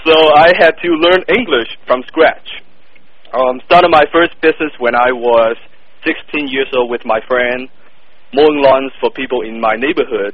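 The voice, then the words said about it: Thick non-native English accent. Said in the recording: “my thick accent, English is not my first language”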